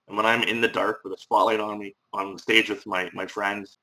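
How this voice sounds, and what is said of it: Irish accent. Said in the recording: “Bring it right back to Ireland. ... don't repress that accent, sir. I think it's absolutely lovely.”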